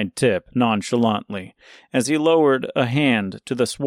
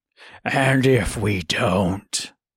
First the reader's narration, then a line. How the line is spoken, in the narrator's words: asked the wolf with a low growl